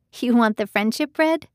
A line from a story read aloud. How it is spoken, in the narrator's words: Susanna laughed